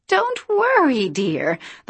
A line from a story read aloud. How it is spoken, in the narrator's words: the woman said brightly